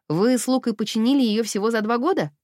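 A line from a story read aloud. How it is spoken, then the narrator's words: Snorting. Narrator (Russian): Офелия фыркнула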